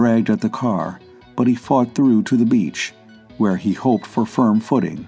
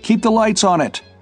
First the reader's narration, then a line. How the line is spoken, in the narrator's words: he shouted